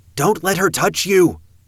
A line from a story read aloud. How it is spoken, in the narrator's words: Rose called out